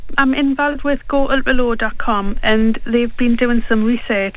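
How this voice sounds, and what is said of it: Northern English accent. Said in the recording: “nice northern accent”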